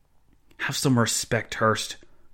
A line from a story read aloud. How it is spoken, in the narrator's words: Joseph Zahn hissed